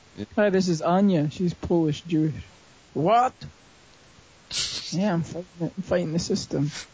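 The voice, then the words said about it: Put-on Polish accent. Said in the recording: “Why do the neo-Nazis have a Polish accent?”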